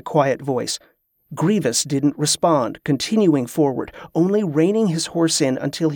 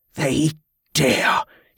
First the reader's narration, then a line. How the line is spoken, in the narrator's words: he spat